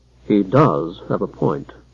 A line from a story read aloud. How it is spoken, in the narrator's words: murmured the clerk in Darrow's ear